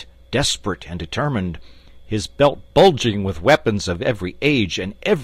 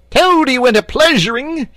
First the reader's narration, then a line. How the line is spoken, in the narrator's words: he yelled